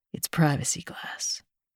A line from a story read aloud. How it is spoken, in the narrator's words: whispers behind me